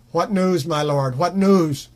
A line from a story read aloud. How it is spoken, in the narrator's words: cried the guard